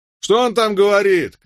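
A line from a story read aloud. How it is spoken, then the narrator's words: Shouted. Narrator (Russian): крикнул Мелвилл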